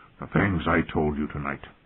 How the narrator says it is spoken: he said, his voice sounding even rougher than usual

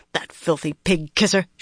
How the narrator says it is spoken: she growled

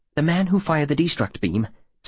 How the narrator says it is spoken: Sensio blurted

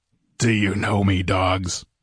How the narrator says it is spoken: he rumbled

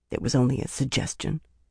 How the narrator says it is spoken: Birgitta muttered weakly

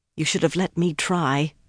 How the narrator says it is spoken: Nynaeve said softly

